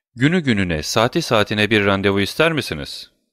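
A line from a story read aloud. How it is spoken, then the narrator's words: Plain. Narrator (Turkish): dedi Kont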